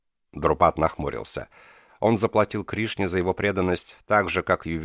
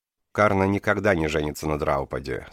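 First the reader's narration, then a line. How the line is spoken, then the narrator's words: Calm. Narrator (Russian): спокойно сказал Кришна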